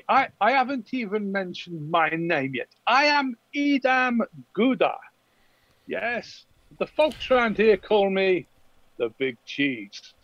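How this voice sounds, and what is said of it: Put-on foreign-sounding accent. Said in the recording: “accent. It doesn't sound like normal uh, Empire uh, people... It sounds more accent... Bretonnian, actually.”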